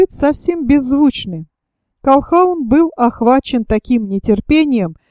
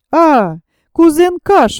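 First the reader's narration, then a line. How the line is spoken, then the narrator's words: Annoyed exclamation. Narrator (Russian): воскликнула Луиза, и в тоне ее прозвучало не столько удивление, сколько досада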